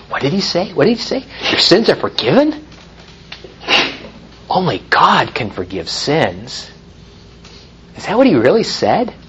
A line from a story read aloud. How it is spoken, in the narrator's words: people start to whisper to each other